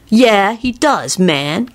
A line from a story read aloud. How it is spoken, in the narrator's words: Kenny replied sulkily